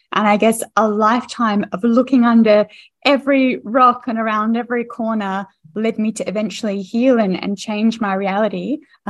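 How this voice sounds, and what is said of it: Australian accent. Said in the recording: “your accent is Australian”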